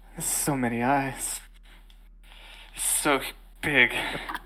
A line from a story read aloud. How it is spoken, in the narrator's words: muttering